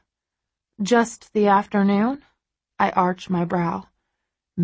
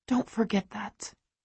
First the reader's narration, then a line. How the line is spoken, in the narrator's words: I whisper